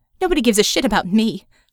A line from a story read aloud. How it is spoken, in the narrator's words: she said bitterly